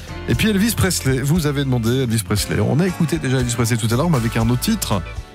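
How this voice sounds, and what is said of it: Sick, flu-affected voice. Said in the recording (French): “je suis vraiment pas bien... Même l'accent est grippé aujourd'hui.”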